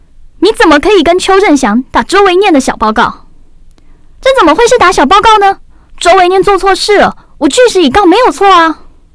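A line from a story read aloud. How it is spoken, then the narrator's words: Loud, displeased. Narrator (Chinese): 李奇山好像觉得我是在挑衅，他的表情更不愉快，高声道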